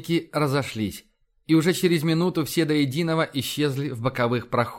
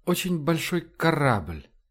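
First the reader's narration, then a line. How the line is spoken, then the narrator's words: Thoughtful speech. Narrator (Russian): задумчиво сказал Кристоф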